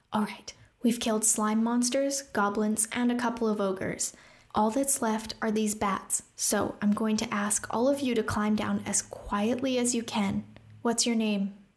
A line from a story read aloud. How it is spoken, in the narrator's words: Rune whispered